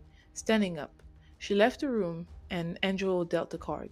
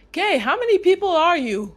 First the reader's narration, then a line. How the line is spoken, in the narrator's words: he shouted